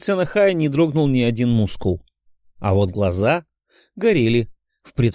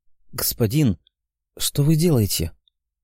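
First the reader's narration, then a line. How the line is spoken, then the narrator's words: Barely audible whispered question. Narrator (Russian): прошептав еле слышно, спросил Нахай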